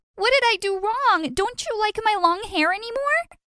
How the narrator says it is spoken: screaming

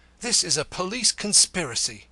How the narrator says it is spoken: cried in accents of infinite indignation

